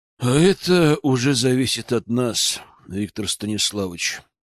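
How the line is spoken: Bored sigh. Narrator (Russian): скучающе вздохнул Орлов

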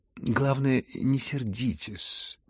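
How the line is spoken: Patronizing drawl. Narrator (Russian): протянул Евгений Павлович, покровительственно растягивая свои слова

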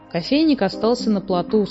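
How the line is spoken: Plain. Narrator (Russian): сказал Снус-Мумрик

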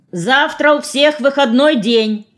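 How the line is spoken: Shouted after someone. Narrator (Russian): крикнул вдогонку Харитон

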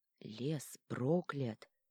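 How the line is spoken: Quiet reply. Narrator (Russian): тихо ответил Итар

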